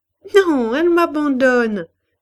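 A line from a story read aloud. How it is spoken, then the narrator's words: Laughing reply. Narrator (French): répondit-elle en riant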